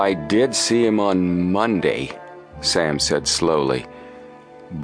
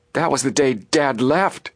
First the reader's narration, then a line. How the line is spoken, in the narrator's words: Joe exclaimed